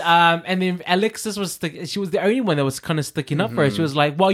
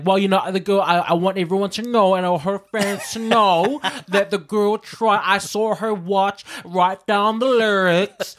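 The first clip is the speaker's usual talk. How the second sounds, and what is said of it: Imitates another person's voice. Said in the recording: “That's my impression of Alexis.”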